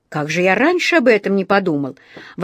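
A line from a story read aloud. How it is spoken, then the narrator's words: Exclamation. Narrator (Russian): воскликнул он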